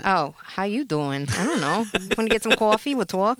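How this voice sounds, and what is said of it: Put-on Brooklyn accent. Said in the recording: “your Brooklyn accent”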